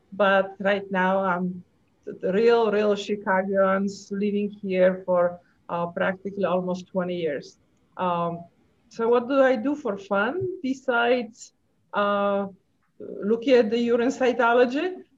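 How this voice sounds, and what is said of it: Polish accent. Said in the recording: “I have this kind of funny accent... I'm originally from Poland”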